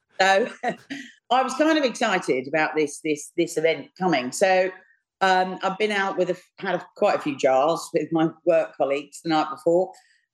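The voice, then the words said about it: London Cockney accent. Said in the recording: “I don't know whether you hear from my accent, but I'm actually a Bow Bell Cockney. I'm from London.”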